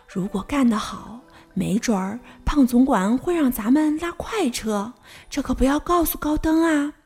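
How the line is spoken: Whispering. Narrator (Chinese): 他又小声说

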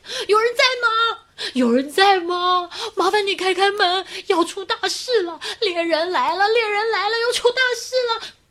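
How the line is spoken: Frantic shouting. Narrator (Chinese): 在那儿大喊

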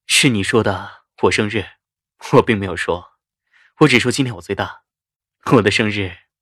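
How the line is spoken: Soft laugh, wistful. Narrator (Chinese): 夏医生眸子闪过一丝落寞，轻笑道

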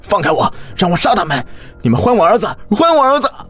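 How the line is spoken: Loud shouting. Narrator (Chinese): 身后是小李的大喊

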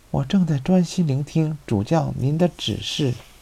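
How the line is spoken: Murmuring to himself. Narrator (Chinese): 米莱迪，阿多斯喃喃自语地说

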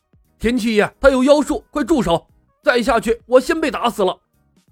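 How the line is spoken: Terrified hurried shout. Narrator (Chinese): 赵正义险些被吓得灵魂出窍，连忙吼道

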